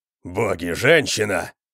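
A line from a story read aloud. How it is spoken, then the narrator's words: Roaring. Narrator (Russian): взревел Конан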